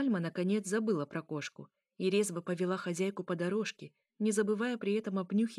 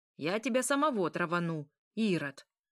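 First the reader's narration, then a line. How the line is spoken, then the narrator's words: Old woman's shout. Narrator (Russian): выкрикнула старушка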